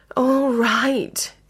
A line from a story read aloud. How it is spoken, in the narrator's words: Edmund sighed wearily